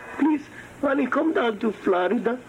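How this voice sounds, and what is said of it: Man putting on a mother's voice. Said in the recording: “Don't do the voice ... a man pretending to be a mom of some guy named Pablo”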